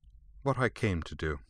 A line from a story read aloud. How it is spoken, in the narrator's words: Beaten, but coldly unrepentant, replied unfeelingly